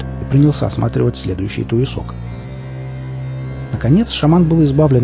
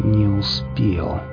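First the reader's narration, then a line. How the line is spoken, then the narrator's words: Through gritted teeth. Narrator (Russian): наконец процедил он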